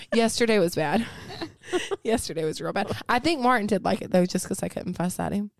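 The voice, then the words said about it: Hoarse, laryngitis-strained voice. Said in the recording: “has a little case of the laryngitis ... That's your sexy voice”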